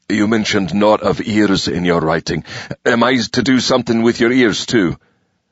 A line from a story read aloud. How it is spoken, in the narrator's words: Jane nearly whimpered with frustration